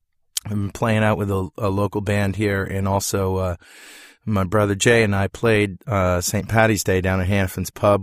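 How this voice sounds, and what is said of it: Slightly strained, fading voice. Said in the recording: “Losing my voice a little”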